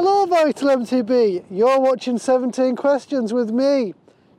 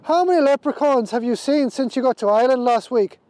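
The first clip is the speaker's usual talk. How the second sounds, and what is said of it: Put-on Irish accent. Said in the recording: “Would you like it in my finest Irish accent?”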